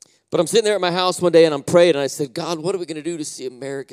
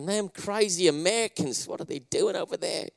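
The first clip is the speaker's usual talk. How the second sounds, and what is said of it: Poor put-on Australian accent. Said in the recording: “I know my Australian accent is bad”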